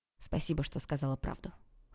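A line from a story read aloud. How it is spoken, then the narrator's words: Cold. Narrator (Russian): холодно ответил Олег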